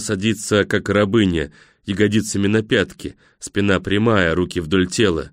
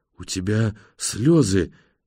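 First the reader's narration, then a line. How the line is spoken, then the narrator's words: Quiet. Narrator (Russian): тихо произносит она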